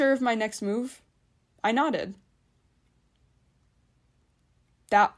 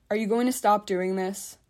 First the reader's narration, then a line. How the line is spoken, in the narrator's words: she finally asked